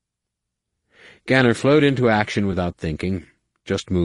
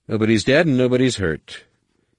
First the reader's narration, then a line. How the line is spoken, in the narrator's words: Ganner said coolly, voice as even as his lightsaber's hum